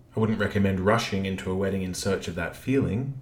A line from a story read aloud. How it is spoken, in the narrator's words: Kate said dryly